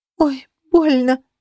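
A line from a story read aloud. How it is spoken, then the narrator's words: Choking, moaning. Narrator (Russian): задыхаясь от дыма, стонала она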